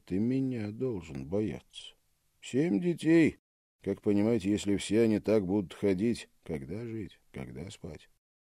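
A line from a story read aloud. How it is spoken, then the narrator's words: Calm mother answering. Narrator (Russian): мать спокойно отвечала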